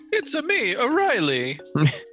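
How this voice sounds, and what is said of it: Mario-style Italian cartoon voice. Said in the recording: “that was a good impression.”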